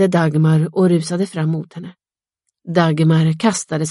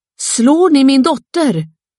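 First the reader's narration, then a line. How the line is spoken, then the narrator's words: Mother screaming. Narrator (Swedish): skrek mor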